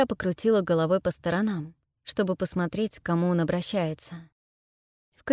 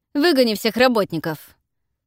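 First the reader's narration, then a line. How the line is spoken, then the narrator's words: Bark. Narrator (Russian): рявкнул кому-то Коул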